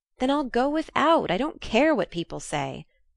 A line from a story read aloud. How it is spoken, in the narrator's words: cried Jo